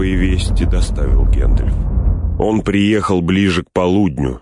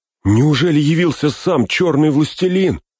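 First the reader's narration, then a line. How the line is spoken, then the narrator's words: Terrified cry. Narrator (Russian): в ужасе вскрикнул Пин, забыв о дворцовых приличиях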